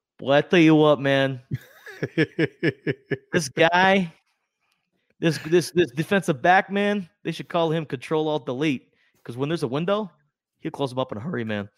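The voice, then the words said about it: Imitates another person's voice. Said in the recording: “your obligatory John Gruden imitation”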